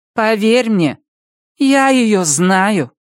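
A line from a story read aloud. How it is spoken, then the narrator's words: Grim. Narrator (Russian): мрачно закончила Илса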